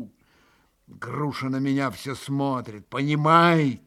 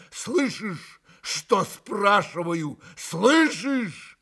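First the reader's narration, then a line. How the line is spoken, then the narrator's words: Joyful shout. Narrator (Russian): с искаженным от радости лицом прокричал ему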